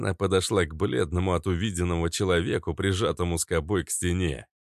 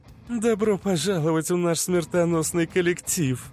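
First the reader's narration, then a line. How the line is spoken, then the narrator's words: Laughing. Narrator (Russian): Засмеялась Иштар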